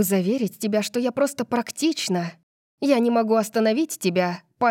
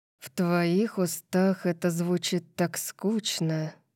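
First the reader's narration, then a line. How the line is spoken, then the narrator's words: Muttered. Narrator (Russian): пробормотал Калиб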